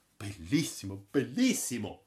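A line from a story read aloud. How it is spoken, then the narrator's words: Admiring exclamation. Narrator (Italian): aveva esclamato Braddock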